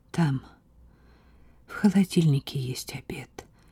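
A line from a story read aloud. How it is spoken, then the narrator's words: Quiet mother's voice. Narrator (Russian): тихо заговорила мать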